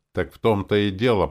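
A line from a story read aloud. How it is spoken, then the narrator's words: Near growl. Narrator (Russian): почти прорычал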